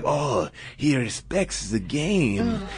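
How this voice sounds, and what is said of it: Bad put-on Japanese accent. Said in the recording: “that sounds like I'm doing a bad Japanese accent”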